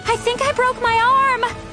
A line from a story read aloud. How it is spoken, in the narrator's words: wailed